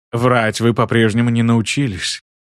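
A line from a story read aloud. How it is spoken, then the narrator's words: Sighing. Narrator (Russian): вздохнул Гиен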